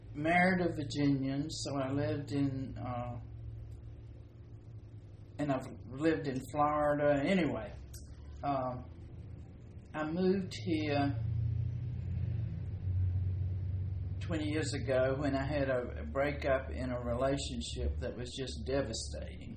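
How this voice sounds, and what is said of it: Mixed Southern American accent. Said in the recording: “I was born in Virginia, raised in Alabama, so I've got this bastard accent.”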